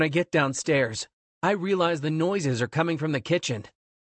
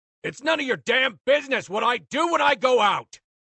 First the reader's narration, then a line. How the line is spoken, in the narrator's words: shouts